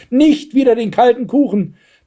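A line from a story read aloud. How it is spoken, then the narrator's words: Shout. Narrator (German): schrie Blaustrümpfchen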